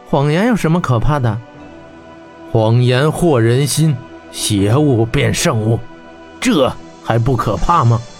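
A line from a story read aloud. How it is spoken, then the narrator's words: Slow. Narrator (Chinese): 霍真缓缓说道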